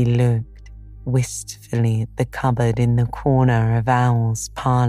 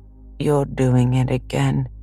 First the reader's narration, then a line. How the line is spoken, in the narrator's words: said Pooh sadly